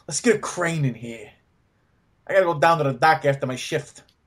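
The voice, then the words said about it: Stereotypical New York construction-worker accent. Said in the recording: “do your best New York accent ... stereotypical, just construction worker”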